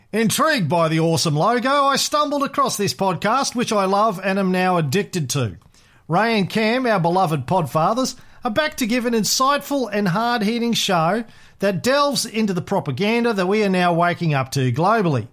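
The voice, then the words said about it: Exaggerated put-on Australian accent. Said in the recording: “I'm going to do this in my most ochre Australian accent... It's starting to sound like Monty Python doing an Australian accent”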